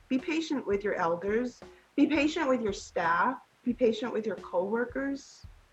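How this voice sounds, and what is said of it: Southern California Valley girl accent. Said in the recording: “My accent might sound like I'm some white girl from, you know, Fountain Valley or Huntington Beach... like Valley girl”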